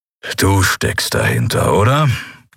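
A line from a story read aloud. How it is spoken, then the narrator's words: Growled. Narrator (German): knurrte Keru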